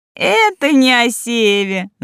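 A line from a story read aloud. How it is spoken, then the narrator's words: Laughing. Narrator (Russian): засмеялась Лолита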